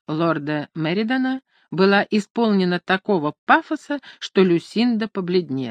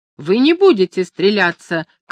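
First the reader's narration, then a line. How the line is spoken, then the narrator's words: Shout. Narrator (Russian): крикнула Люсинда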